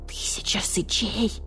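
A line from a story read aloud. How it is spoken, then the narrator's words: Hissing creature. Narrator (Russian): прошипел барсукот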